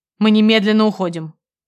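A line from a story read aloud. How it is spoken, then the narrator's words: Husband, icy tone. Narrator (Russian): проговорил ледяным тоном муж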